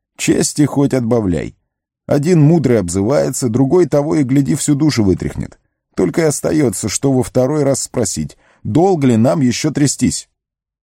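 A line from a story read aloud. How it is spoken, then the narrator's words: Laughing. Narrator (Russian): Гэндальф засмеялся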